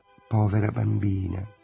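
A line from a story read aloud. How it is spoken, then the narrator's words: Dreamy murmur. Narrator (Italian): mormorò Lulu, sempre con l'aria di sognare essendo sveglia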